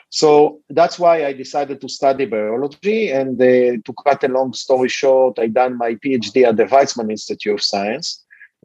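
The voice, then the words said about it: Israeli-accented English. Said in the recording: “you can hear from my accent that I'm not a Native American. I was born and raised in Israel.”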